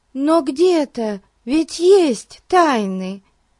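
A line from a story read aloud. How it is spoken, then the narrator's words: Exclaiming. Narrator (Russian): воскликнула Дейзи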